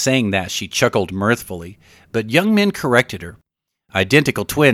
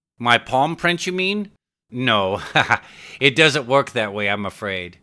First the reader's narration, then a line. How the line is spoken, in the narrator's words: laughed young Min Joe